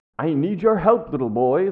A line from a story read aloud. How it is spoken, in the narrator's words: continued, a slight pleading note creeping in